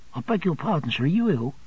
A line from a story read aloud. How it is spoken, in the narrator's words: The little parlour-maid, looking earnestly at me, said